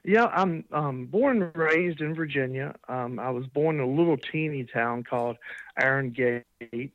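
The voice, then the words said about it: American accent. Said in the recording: “obviously from your accent, a lot of people will realize that you're based in the U.S.”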